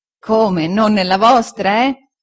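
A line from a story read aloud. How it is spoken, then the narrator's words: Laughing reply. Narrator (Italian): rispose Omer ridendo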